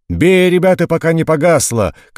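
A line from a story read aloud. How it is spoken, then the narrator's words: Sergeant's shout. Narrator (Russian): кричал вахмистр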